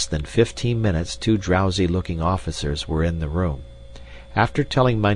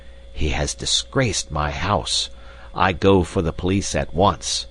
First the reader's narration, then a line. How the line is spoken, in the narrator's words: hissed the landlord